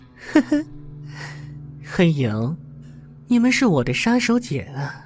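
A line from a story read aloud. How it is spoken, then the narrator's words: Faint amused smile. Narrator (Chinese): 邓肯淡淡一笑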